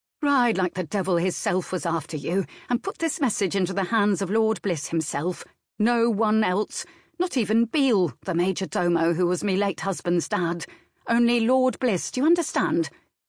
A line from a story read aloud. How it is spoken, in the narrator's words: Nan saying sharply